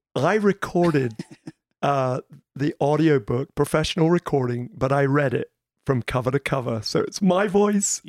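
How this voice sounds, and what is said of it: Husky mixed English-American accent. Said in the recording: “That mixed up English American slash sort of accent. But my husky voice right there.”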